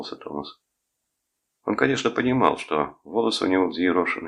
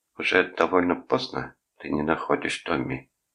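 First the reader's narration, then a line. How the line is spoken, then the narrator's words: Low voice. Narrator (Russian): сказал дядя Гарольд низким голосом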